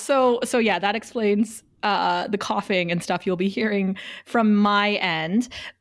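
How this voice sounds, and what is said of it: Sick, scratchy voice. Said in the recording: “I'm sick. You can't tell from my voice. I might lose it by the end of the recording... how bad and scratchy it was”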